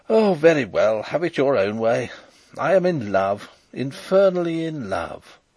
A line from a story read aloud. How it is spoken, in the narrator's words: he exclaimed